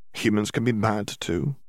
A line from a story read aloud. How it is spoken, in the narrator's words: Hermione murmured, thinking